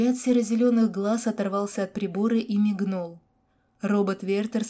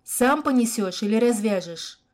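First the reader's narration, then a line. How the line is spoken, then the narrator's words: Snide, angry croak. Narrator (Russian): Ехидно и зло крякнула Яна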